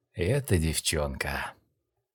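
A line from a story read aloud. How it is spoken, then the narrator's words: Muttering under breath. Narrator (Russian): пробормотал Линь-Хуан себе под нос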